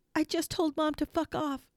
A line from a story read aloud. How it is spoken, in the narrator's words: ran, screaming